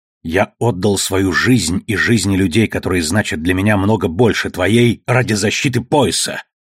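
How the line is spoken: Growled. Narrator (Russian): прорычал Фред

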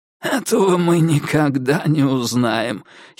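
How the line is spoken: Giggling. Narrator (Russian): хихикнул инспектор

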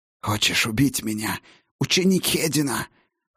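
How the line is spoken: Hoarse breathy. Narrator (Russian): хрипло выдохнула ведьма

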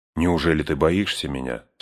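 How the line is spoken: Plain. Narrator (Russian): спросил Барамир

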